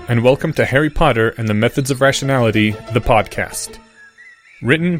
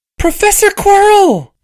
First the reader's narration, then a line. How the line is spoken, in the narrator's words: Harry shrieked very quietly